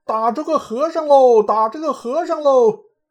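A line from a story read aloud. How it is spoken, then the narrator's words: Crowd shouting in unison. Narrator (Chinese): 那楼上齐声发喊道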